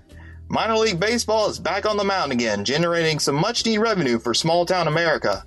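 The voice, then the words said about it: Southern American accent. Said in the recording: “We have a Southern accent coming up next from”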